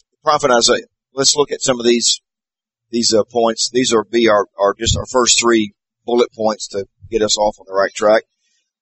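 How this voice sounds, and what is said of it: Hoarse, cold-affected voice. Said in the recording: “Apologize for my voice. I'm getting over a cold, so I'm hoping my voice lasts at least through the class.”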